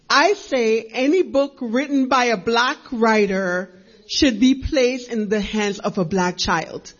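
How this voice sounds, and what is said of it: Jamaican accent. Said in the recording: “by way of Jamaica, if you hear an accent.”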